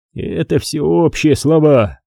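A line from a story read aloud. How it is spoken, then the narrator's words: Grumbling close to ear. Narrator (Russian): проворчала Дел Куари на ухо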